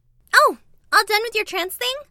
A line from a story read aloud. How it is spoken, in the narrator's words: Chrissy chirped